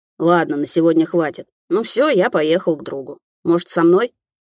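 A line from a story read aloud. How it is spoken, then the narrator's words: Grumbling. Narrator (Russian): проворчала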